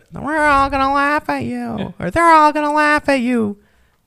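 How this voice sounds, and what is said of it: Bad impression of Captain Insano. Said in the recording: “Wow, that was an all-time bad impression”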